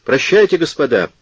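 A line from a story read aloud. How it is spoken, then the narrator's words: Exclaimed. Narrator (Russian): воскликнул Серано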